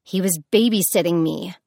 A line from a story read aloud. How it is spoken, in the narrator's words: Persephone snapped